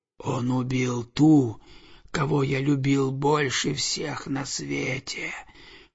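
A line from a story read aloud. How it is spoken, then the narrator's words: Hissing serpent. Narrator (Russian): прошипел змей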